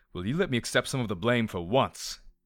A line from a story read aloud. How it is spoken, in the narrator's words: He snapped